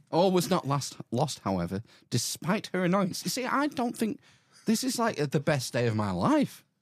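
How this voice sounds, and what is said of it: Mixed Irish and Australian accent. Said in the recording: “Saying something's not right with my accent. I'm trying to mash Tipperary and Aussie.”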